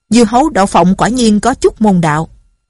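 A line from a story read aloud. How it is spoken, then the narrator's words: Shout. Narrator (Vietnamese): Hắn la lên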